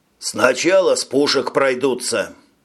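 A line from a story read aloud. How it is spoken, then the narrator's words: Completely calm. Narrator (Russian): совершенно спокойно сообщил пилот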